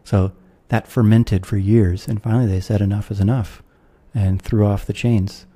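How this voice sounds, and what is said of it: American accent. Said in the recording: “I'm an American, you can tell from my accent”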